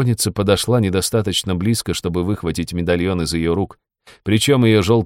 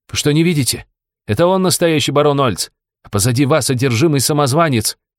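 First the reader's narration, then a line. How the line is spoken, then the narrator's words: Shouting. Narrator (Russian): прокричала Магесса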